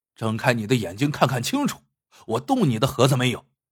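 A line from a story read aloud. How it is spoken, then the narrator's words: Angry. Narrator (Chinese): 郭小眼怒道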